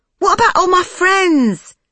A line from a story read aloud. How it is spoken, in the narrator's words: She wailed